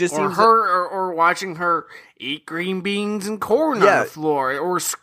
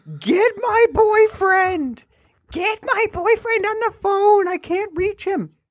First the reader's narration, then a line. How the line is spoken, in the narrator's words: screaming like